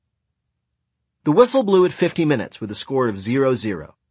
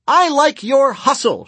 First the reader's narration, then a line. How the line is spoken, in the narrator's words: shouted our goalie